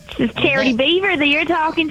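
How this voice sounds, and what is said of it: Put-on hillbilly character voice. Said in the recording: “doing a hillbilly voice?”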